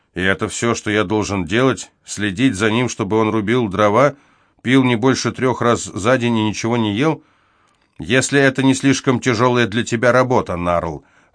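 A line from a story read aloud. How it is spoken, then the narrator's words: Father, even tone. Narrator (Russian): ровным тоном ответил отец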